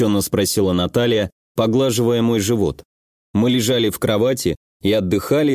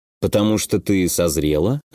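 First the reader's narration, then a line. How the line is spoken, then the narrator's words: Lazy. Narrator (Russian): лениво предположил я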